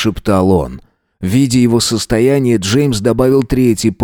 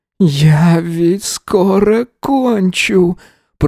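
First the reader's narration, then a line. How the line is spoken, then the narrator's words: Hoarse rasp. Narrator (Russian): прохрипел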